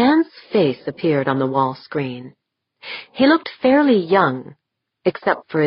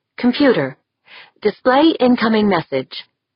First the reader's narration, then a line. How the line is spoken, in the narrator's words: she called out